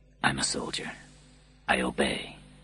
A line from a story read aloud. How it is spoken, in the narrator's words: he whispered softly